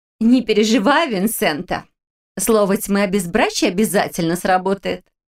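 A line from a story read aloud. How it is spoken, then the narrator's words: Girl laughing. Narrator (Russian): рассмеялась девушка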